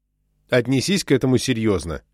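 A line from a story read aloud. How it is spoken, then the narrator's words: Angry. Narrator (Russian): сердито сказал Бэйнс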